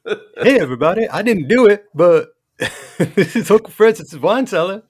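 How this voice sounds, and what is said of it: Usual voice. Nothing is said of it.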